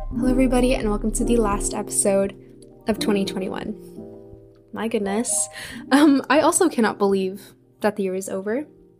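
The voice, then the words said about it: Tired, slightly coarse voice. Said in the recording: “I sound tired or my voice is a little coarse”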